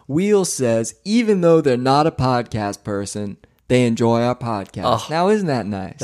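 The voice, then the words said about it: Put-on Southern drawl. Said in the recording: “I'm getting a little bit of a southern drawl here”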